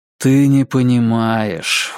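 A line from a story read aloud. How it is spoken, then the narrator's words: Tired. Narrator (Russian): устало ответил Клинт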